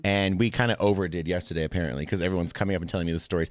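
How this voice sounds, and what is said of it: Voice lower than usual. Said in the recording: “Why my voice is a little lower than normal, because I'm usually a lot more high pitched.”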